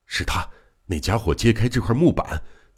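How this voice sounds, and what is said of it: Barely audible whisper. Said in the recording (Chinese): “用几乎听不到的小声回答说”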